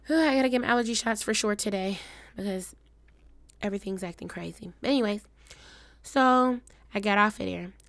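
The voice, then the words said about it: Weird-sounding breathing from asthma. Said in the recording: “my asthma acting up. That's why I sound weird. Like, when I breathe in.”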